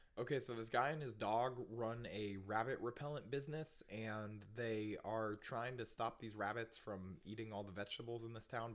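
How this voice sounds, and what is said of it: Hoarse, sick-sounding voice. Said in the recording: “I got sick during between the first and second half of this podcast ... if you hear a sexy hoarse voice, it's still ... because he's sick”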